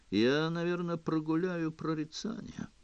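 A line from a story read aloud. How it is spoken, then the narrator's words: Glum. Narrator (Russian): уныло сказал он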